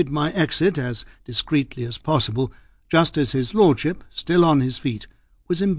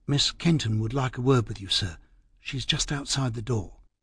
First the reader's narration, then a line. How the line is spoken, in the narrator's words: the first footman beside me, who whispered